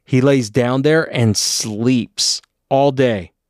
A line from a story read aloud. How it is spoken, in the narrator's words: my stepdad bellowed